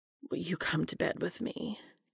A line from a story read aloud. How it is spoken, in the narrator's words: Cass mutters, his voice trembling